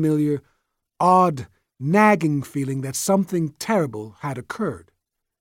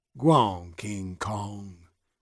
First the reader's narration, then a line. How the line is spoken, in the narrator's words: he murmured